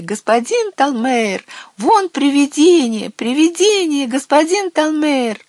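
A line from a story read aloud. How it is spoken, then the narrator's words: Children shrieking and shouting. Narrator (Russian): дети девочки начали визжать, а мальчики закричали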